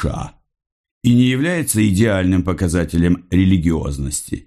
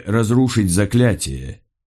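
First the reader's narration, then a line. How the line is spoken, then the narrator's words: Sarcastic remark. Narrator (Russian): Дэн Деннет язвительно замечает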